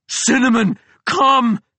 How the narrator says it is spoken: I yelled with Big Jim's thunder

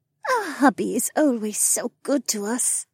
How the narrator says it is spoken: Becca purred

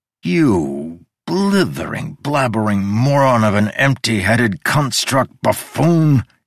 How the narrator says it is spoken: he groaned

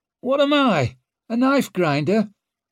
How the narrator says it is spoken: The manager started howling again

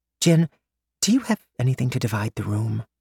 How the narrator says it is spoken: Maymay whispered

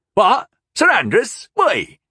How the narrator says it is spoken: the man cried in alarm

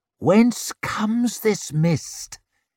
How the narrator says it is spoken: hissed Stand of the Barrows

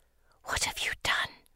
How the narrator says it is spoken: she whispers

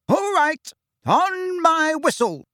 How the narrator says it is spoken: shouted Angelina

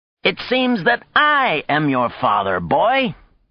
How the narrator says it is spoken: exclaimed

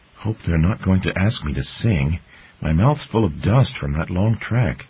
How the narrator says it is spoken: Looking slightly bemused, the squirrel maid whispered to her friend

